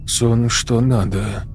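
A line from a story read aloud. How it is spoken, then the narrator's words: Muttered. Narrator (Russian): пробормотал он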